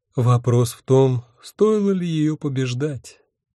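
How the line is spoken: Sad elf. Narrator (Russian): печально добавил эльф

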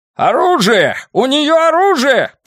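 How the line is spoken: Shouted. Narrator (Russian): прокричал Фредди Дентон

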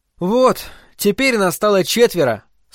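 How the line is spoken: Slight sigh. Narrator (Russian): слегка вздохнул Такацуки

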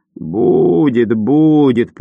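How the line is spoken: Creaky voice. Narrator (Russian): проскрипел он

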